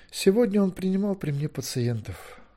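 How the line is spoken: Wistful sigh. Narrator (Russian): вздохнул при одном вспоминании Гвидион

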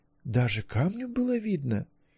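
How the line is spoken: Admiring whisper. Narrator (Russian): шепотом спросила Гвенлиан, думая о Маккольме с восхищением

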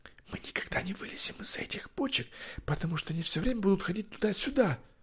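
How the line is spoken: Whisper. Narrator (Russian): прошептал Левелис

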